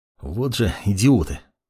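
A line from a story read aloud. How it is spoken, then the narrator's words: Less angry, mage. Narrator (Russian): Уже не так злобно, произнес маг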